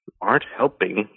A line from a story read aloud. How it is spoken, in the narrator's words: Dane muttered